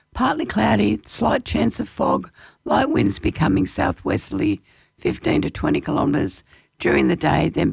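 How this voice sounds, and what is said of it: Hoarse, fading voice. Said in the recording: “it looks like I'm losing my voice again.”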